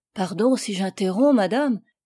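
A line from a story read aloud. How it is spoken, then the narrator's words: Quick exclamation. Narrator (French): s'écria vivement le comte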